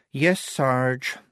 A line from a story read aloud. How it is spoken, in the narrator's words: she said wearily